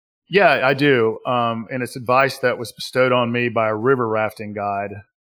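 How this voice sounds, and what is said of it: Southern US accent. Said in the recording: “my Southern US accent”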